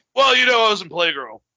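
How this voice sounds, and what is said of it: Imitates another person's voice. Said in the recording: “That was a pretty spot on Sean impersonation”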